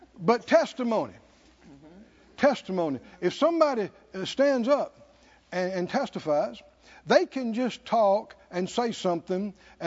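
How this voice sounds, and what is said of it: Noticeable regional accent. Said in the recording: “my accent, because it was even much more pronounced years ago than it is now... has a funny accent”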